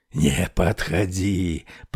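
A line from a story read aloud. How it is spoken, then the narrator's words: Rasping. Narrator (Russian): прохрипел он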